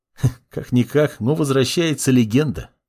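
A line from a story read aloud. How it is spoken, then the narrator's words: Young man's snort. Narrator (Russian): хмыкнул парень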